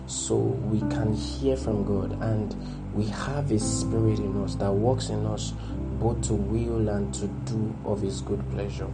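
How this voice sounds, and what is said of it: Low, quiet voice. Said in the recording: “my voice sounds low”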